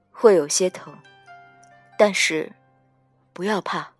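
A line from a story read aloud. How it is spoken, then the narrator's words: Whisper close to ear. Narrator (Chinese): 靠着我的耳畔低声说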